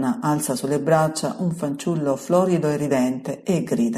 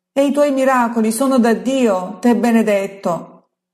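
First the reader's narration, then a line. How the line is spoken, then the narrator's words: Woman shouting from crowd. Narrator (Italian): grida una voce di donna dal mezzo alla folla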